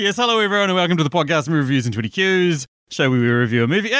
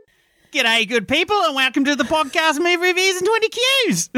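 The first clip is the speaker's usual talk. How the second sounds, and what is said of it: High-pitched imitated Australian actor voice. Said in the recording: “my best Chris Hemsworth imitation ... too high pitched ... too high pitched”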